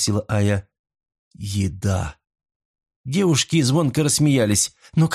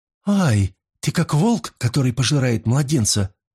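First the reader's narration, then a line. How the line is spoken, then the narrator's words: Exclamation. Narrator (Russian): воскликнула Ая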